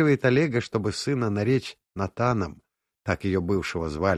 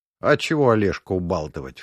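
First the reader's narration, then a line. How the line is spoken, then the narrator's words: Snorting. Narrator (Russian): фыркнул я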